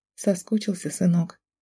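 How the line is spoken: Whisper. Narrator (Russian): прошептала

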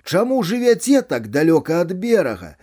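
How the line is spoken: Shouted. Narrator (Belarusian): я крыкнуў

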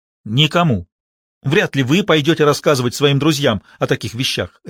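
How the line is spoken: Sharp. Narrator (Russian): резко сказал Реджи

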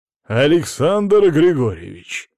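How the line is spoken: Threatening exclamation. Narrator (Russian): воскликнул угрожающим тоном

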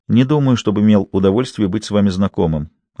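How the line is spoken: Politely indifferent tone. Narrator (Russian): ответил он вежливо равнодушным тоном

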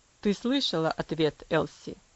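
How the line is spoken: Cold, stern father. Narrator (Russian): Холодно произнес отец

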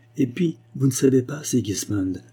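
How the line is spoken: Impulsive exclamation. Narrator (French): s'écria-t-elle avec assez d'inconséquence

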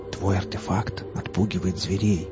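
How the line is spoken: Whispered. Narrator (Russian): прошептал лесник

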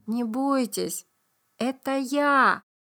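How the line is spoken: Gentle but trembling. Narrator (Russian): Как можно ласковее сказал доктор, но дрожащим голосом

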